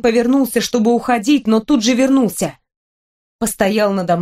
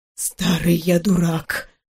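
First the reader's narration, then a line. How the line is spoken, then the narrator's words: Whisper. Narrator (Russian): шепотом сказала Берон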